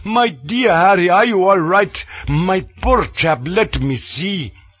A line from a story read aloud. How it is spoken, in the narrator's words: panting like a bellows, crying